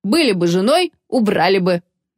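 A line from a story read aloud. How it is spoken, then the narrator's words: Mocking servant. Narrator (Russian): насмешливо сказал слуга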